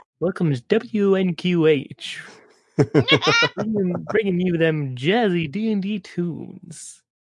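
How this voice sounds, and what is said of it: Radio announcer voice. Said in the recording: “talk in my radio voice”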